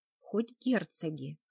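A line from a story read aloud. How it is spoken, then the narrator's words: Resigned sigh. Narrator (Russian): обреченно вздохнула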